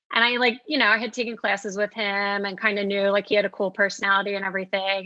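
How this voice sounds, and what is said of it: South Jersey accent. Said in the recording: “Oh, I can tell your accent ... South Jersey”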